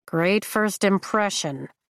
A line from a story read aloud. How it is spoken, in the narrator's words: I mutter